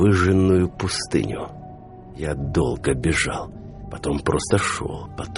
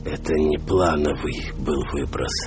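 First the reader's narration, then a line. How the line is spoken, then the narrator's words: Barely audible hoarse croak. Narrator (Russian): прохрипел я чуть слышно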